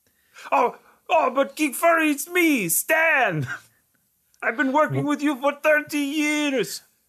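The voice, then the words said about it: Exaggerated French accent. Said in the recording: “Now he's French, straight up French accent ... this ridiculous accent”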